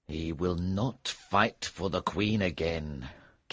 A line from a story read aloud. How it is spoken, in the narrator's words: King Arthur said bitterly